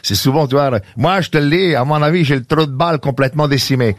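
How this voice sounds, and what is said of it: Exaggerated put-on Quebec accent. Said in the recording (French): “l'accent exacerbé”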